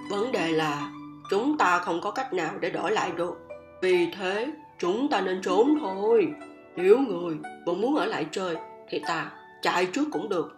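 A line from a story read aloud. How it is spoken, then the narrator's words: Sighing. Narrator (Vietnamese): Ta thở dài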